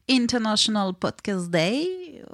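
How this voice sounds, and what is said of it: Put-on English accent. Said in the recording (French): “Mot-clé à l'anglaise ... vous avez entendu mon accent anglais qui est pouf, incroyable”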